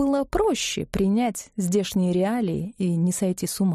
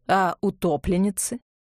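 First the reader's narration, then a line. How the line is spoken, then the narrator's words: Official tone question. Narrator (Russian): спросил Чернов своим особенным, официальным тоном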